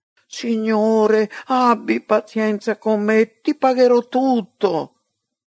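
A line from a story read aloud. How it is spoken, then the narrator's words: Servant pleading. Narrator (Italian): quel servo lo supplicava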